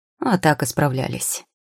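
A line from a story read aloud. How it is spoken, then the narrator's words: Wry snort. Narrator (Russian): хмыкнул аптекарь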